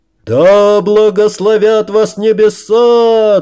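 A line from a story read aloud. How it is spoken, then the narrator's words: Guests roaring in unison. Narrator (Russian): дружно взревели гости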